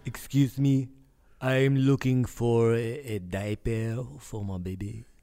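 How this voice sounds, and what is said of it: Put-on generic European accent. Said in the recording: “Are you from France? I noticed there's an accent there ... I am from Europe ... Europe, just in general ... generic. I cannot promise that the accent will be good.”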